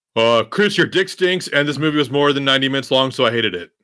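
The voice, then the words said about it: Imitates another person's voice. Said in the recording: “my Horse Lanta impression”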